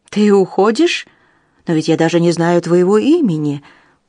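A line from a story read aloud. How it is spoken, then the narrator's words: Exclaiming. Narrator (Russian): воскликнул он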